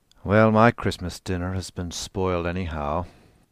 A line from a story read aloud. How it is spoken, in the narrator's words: said bitterly